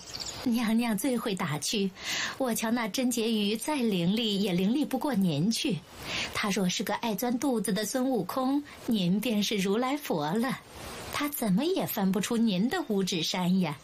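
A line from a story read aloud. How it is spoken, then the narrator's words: Laughing. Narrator (Chinese): 冯叔一笑着说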